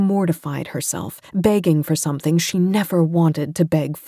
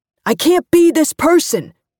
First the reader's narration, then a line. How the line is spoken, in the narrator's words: Mick yelled at her